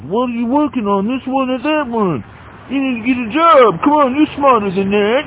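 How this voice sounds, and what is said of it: Mocking New Jersey accent. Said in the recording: “In a stupid fucking New Jersey accent.”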